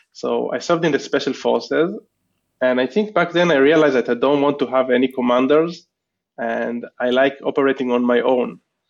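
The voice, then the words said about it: Israeli accent. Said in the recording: “probably you know by my accent, and also I shared with you that I'm from Israel.”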